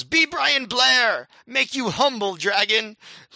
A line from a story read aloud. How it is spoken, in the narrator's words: He yells